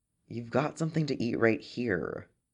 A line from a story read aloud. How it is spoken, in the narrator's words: Quinlan grumbled